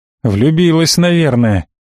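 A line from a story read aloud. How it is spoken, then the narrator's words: Serious young woman's answer. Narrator (Russian): с серьезным лицом ответила девушка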